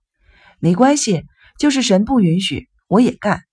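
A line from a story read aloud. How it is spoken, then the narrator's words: Forced smile. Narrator (Chinese): 小个子少年勉强的笑了笑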